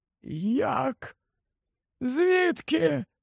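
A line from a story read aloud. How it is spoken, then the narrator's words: Hoarse croak. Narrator (Ukrainian): Олівандер прохрипів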